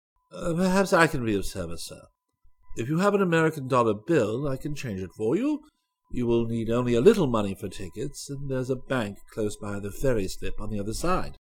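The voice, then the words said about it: Faultless English, distinct Oxford accent. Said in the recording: “spoke to Zircon in faultless English with a distinct Oxford accent”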